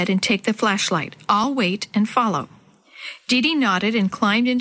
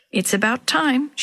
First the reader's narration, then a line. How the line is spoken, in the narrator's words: muttered to herself